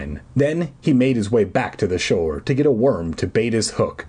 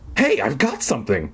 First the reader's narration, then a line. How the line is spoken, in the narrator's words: Mark cried excitedly